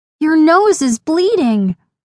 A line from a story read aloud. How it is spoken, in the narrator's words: Lainey exclaimed